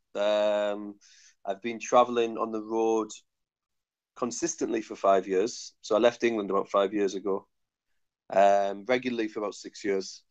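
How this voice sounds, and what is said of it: Northeast English accent. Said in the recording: “my accent might be a little bit challenging to understand, but I'm from the northeast of England”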